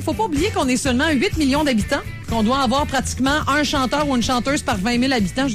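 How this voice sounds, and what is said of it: Québécois French accent. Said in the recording (French): “On a cet accent-là qu'on a nous donne une certaine couleur, il paraît, vocalement”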